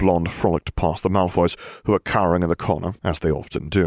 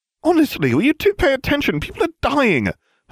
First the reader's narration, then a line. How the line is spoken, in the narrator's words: Hermione snapped